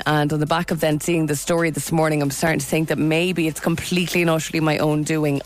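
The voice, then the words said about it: Congested, hoarse voice. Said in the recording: “As you can probably hear, my voice is a bit of a cold coming on.”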